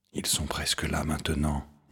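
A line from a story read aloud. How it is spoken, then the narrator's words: Murmur. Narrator (French): murmura Louise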